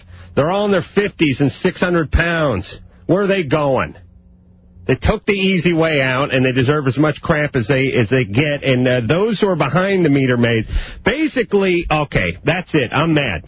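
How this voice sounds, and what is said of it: Yelling, fired-up angry voice. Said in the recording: “I'm yelling. ... I'm fired up”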